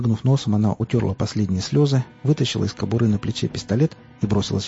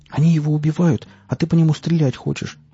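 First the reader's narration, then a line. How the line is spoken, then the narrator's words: Exclaiming. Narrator (Russian): воскликнула Настя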